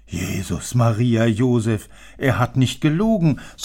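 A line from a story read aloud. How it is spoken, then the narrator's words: Porter's sigh. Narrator (German): seufzte der Portier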